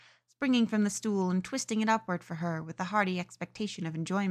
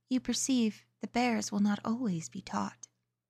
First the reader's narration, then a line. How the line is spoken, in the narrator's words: smiling gently, and said